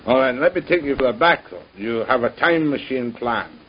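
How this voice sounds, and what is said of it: Scottish accent. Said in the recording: “I love that Scotch accent.”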